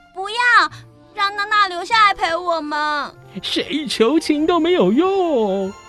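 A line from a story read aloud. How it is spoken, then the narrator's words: Loud cry. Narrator (Chinese): 温蒂大声叫道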